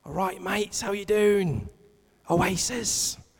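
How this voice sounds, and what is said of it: Put-on Manchester accent. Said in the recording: “That's my best Manchester accent.”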